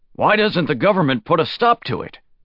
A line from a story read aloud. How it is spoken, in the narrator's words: Shi Qiang asked sharply